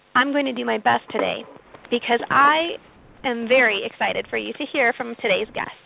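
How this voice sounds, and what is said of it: Rough, hoarse voice. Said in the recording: “my voice sounds a little rough today, it's because I had surgery yesterday ... my throat is still rough from the anesthesia”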